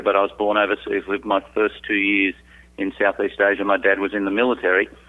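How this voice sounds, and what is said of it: Australian accent. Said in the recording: “You've got this great accent. You're from Australia.”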